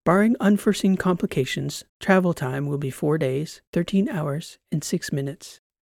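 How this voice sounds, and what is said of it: Bland, flat AI voice. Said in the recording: “in her blandest AI voice”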